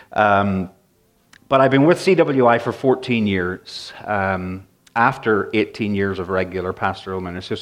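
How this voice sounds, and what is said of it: Northern Irish and English mixed accent. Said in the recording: “in Northern Ireland and in England. So that's where the accent is from. ... My accent is all over the map ... my accent is changing, so I hope it's understandable.”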